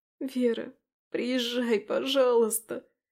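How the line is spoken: Hoarse, tearful, choked. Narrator (Russian): Хриплю я, игнорируя слезы, безостановочно бегущие по лицу и мешающие говорить

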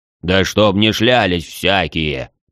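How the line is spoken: Deep-voiced blacksmith. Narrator (Russian): Пробасил кузнец

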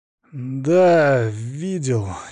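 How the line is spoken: Uncertain. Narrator (Russian): неуверенно произнес Игорь

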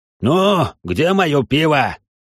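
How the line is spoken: Loud bark. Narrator (Russian): гаркнул

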